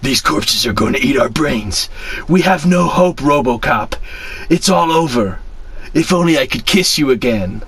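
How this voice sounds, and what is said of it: Batman character voice. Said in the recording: “No, how does he speak? I'm doing the same voice.”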